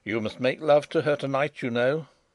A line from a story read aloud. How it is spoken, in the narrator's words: Sapt said in a sharp, decisive voice